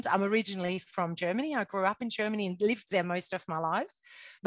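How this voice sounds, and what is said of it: Strange foreign accent. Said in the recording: “she's got a strange accent”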